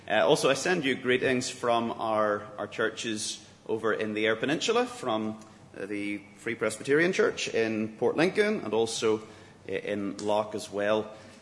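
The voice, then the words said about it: Speaks English with a distinct accent. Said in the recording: “I'm glad to add a bit of diversity to the English language with my accent, but as long as you can understand it”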